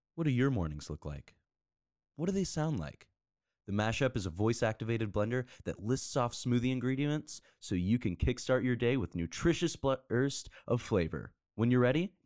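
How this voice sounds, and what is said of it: Commercial announcer voice. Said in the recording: “do this in your commercial voice”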